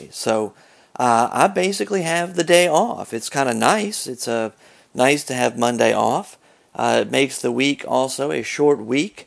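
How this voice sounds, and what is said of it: Scratchy voice. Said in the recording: “my voice is a bit scratchy. I have had kind of a cold going on for several days now”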